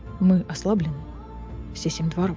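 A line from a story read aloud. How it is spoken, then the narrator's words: Quiet. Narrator (Russian): тихо сказал Азриэль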